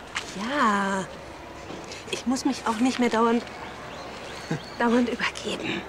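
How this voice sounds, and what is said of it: Whispering. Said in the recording (German): “Warum flüsterst du?”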